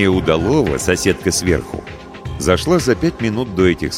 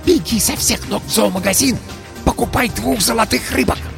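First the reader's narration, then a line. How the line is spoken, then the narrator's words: Loud whisper. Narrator (Russian): сказала громким шепотом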